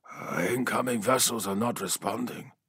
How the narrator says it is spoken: replied quietly

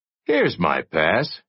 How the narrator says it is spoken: said, happily

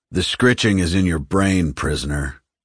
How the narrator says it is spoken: AG said dryly

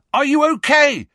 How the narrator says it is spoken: he yelled

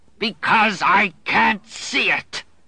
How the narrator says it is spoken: he roared

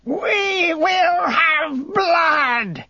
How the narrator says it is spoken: she roared, and the sound of her threat filled the room so that the very stones trembled

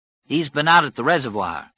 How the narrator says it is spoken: Ralph said

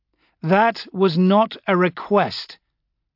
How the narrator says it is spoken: I said, raising my voice a little

